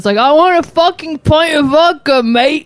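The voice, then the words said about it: Put-on British accent. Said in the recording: “I decided a British accent would make them serve me.”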